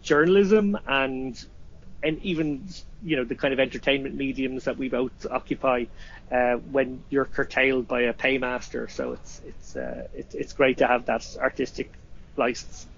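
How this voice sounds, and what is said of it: Irish accent. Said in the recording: “make fun of your accent ... people who don't understand the Irish accent”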